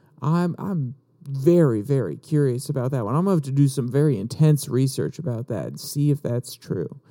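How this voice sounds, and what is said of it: Sarcastic tone. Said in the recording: “I'm being sarcastic, ... I'm being overly sarcastic”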